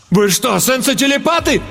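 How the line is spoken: Horrified exclamation. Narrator (Russian): С ужасом воскликнул я

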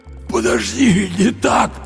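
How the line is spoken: Hoarse wheeze. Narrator (Russian): просипел Андрей

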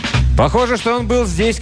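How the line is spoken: Shout. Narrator (Russian): крикнул я

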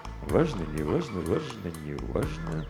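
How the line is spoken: King repeating in undertone. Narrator (Russian): согласился король и несколько раз повторил вполголоса

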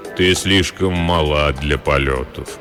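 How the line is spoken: Deep, soft male voice. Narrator (Russian): произнес высокий человек глубоким мягким голосом

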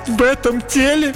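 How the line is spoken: Sniffling princess. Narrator (Russian): Принцесса всхлипнула

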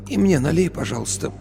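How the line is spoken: Hoarse after deep sigh. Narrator (Russian): Она глубоко вздохнула, попросила сипло

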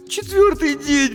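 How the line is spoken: Sobbing. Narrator (Russian): всхлипнула Дженни

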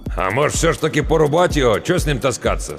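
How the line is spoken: Doubtful snort, older man. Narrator (Russian): с сомнением хмыкнул тот, что постарше

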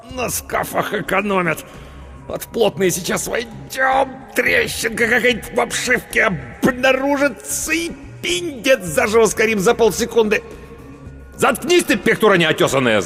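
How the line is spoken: Angry bark. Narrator (Russian): злобно гаркнул Паводников

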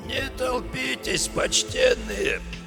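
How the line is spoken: Hoarse, cracked request. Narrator (Russian): Сиплым, надтреснутым голосом попросил

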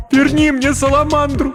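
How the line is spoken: Sobbing plea. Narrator (Russian): рыдая, попросила Кирен

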